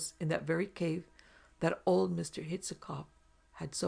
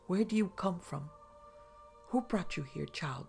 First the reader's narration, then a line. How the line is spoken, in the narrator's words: gasped out Nicholas, as pale as death